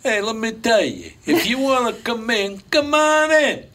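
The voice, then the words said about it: Put-on Italian accent. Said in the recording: “you can still do that accent because it doesn't offend anybody”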